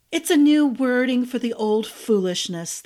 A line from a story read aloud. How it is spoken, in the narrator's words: the mirror said, punctuated by a long sigh